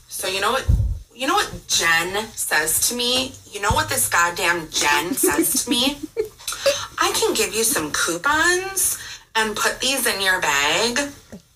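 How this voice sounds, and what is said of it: Speaks with a noticeable accent. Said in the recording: “it's the accent. It makes it so much better.”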